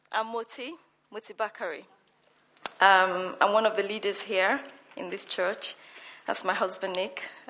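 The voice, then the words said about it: Nervous, shaky voice. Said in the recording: “Can you hear the nervousness in my voice? I'm extremely nervous”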